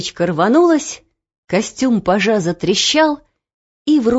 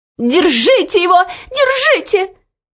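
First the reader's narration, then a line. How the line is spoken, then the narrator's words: Shrill scream. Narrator (Russian): визгливо закричала ей вслед Анидак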